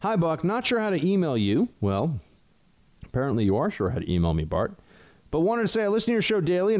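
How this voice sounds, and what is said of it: Usual voice. Nothing is said of it.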